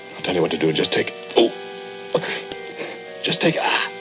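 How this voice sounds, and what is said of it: Breathless, gasping voice. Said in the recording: “I'm out of breath.”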